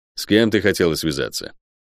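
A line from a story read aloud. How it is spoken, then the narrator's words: Blunt rude question. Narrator (Russian): без церемоний грубо спросил у проклятой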